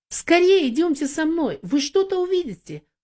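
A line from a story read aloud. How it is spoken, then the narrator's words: Excited exclamation. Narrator (Russian): взволнованно воскликнула Юдив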